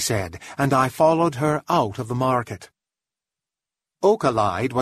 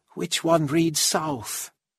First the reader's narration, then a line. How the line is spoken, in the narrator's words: she asked quietly